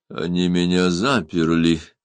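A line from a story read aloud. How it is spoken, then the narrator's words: Muffled voice. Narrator (Russian): глухо проговорил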